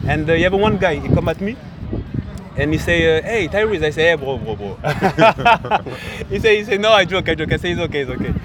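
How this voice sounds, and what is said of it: French accent. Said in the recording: “he hear my accent ... I'm from Paris. I'm French.”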